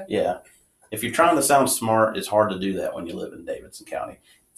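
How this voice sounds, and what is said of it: North Carolina Southern accent. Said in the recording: “we've got a distinct accent that, you know, is hard to hide. ... North Carolina”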